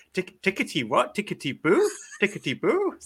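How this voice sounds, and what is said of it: Put-on German accent. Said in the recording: “Particularly loving your German accent as well”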